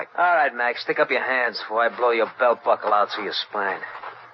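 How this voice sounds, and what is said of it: Brooklyn accent. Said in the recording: “Brooklyn accent”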